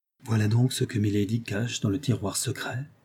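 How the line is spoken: Murmured. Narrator (French): murmura-t-elle

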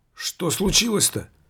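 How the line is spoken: Frightened, anxious driver. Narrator (Russian): испуганно проговорил шофер, с тревогой

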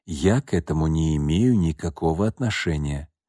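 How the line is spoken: Low undertone. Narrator (Russian): он вполголоса произнес

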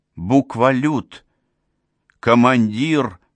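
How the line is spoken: Hoarse wheeze. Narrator (Russian): прохрипел Фергер

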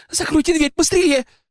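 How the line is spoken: Breathless exclamation. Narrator (Russian): Дина тяжело дыша, воскликнула

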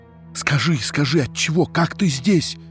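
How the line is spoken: Breathless, broken agitated whisper. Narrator (Russian): говорил Андрей, почти задыхаясь, шепотом, прервавшимся всякую минуту от внутреннего волнения

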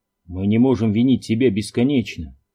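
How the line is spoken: Plain. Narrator (Russian): сказал Кларенс

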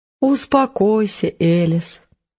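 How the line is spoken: Gentle, tender. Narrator (Russian): ласково произнес доктор

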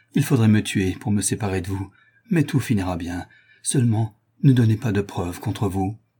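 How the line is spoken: Murmur. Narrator (French): murmura Toinon

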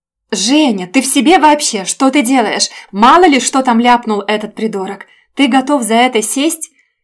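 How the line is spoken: Shouting. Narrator (Russian): прокричала

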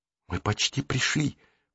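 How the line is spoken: Whisper. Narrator (Russian): прошептал Джейсон

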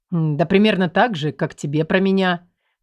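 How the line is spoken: Cold indifferent mutter. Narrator (Russian): пробормотал бездушный Азор, ничуть не тронутый чужой сердечной болью

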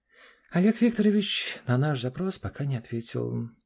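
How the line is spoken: Sigh. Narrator (Russian): вздохнула Тамара Владимировна

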